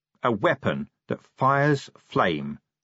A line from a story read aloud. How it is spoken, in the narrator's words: he said slowly